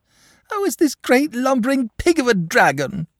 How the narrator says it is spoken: sobbed the boy

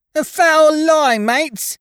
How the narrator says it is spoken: screeched young Dickon

